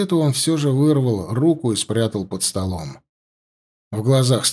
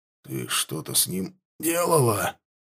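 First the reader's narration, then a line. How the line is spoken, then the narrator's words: Slightly hoarse question. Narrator (Russian): спросил он чуть охрипшим голосом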